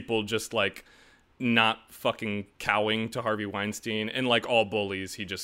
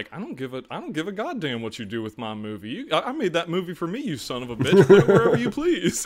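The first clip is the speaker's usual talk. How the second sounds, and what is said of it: Imitates another person's voice. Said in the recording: “excellent impersonation ... that was pretty good ... That was very good.”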